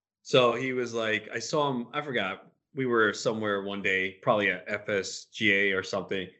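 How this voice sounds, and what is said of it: Usual voice. Nothing is said of it.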